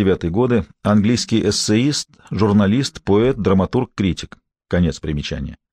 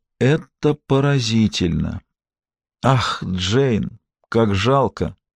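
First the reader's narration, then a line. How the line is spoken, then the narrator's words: Whisper. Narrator (Russian): прошептала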